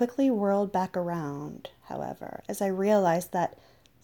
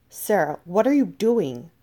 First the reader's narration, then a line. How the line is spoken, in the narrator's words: I cried